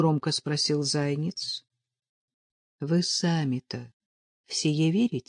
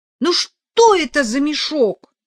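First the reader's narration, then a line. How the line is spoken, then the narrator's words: Offended exclamation. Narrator (Russian): обиженно воскликнула Нелли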